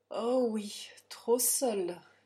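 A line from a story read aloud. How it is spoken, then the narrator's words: Plain. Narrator (French): dit Quinn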